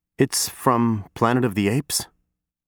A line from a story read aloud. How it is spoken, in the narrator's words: I mutter